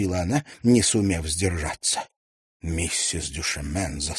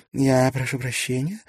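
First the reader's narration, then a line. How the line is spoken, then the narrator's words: Lifeless voice. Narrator (Russian): сказала она безжизненным голосом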